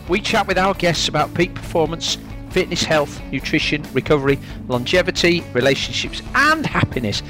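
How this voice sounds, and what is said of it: Yorkshire accent. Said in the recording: “you'll always hear a Yorkshire accent”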